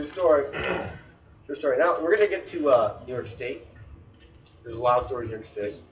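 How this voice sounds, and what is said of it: Usual voice. Nothing is said of it.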